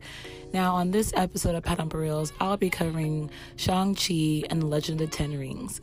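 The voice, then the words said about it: Hoarse, strained voice. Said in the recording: “I sound so different, I am losing my voice”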